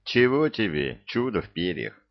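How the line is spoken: Mocking sigh. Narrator (Russian): вздохнул Илья, насмешливо

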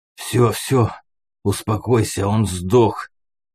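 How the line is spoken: Hoarse, muffled wheeze. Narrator (Russian): прохрипел я из-под туши псины

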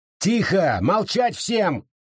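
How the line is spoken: Yelling sheriff. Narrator (Russian): заорал шериф

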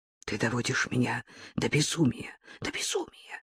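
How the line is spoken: Breathless whisper. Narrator (Russian): шептал он, задыхаясь

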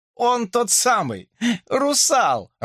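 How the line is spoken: Joyful announcement. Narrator (Russian): радостно сообщил Ред

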